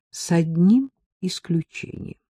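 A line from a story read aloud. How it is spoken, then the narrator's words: Soft. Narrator (Russian): сказал он мягко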